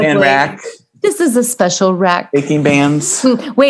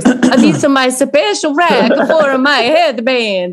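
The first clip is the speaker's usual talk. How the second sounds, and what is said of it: Impression of Giuseppe's voice. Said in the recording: “I have to do my Giuseppe voice.”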